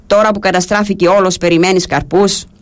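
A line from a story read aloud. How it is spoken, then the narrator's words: Angry. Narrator (Greek): Ο άλλος όμως, που δεν καταλάβαινε, του είπε θυμωμένα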